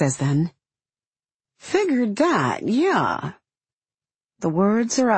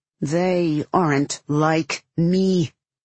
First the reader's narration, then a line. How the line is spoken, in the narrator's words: he says coldly